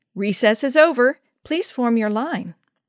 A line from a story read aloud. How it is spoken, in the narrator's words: he called out pleasantly